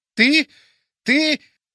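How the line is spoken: Hoarse wheezing. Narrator (Russian): хрипел он

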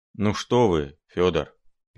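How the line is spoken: Sad mutter. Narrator (Russian): печально буркнул Филипп Филиппович

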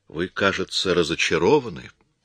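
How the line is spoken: Calm. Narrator (Russian): спокойно сказал Коридон

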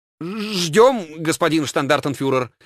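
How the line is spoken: Stammering. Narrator (Russian): запинаясь, произнес один из людей Кальтенбруннера

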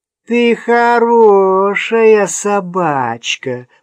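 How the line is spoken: Girl's funny deep voice. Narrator (Russian): продолжала девочка своим смешным басом

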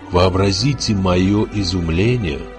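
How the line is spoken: Guest whispering. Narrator (Russian): шептал гость в черной шапочке

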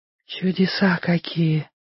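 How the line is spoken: Breathless girl. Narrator (Russian): выдохнула девочка

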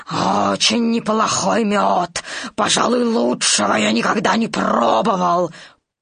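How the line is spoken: Growling heffalump. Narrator (Russian): 587-й слонопотам прорычал

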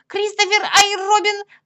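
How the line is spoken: Shouting cloud. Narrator (Russian): закричала тучка

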